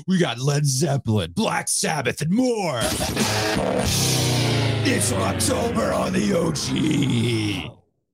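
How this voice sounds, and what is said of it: Cliché rock radio announcer voice. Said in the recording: “Do the voice, man. ... radio station ID ... the most cliche rock”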